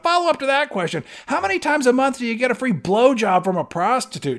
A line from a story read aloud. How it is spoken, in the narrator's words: this other kid yells out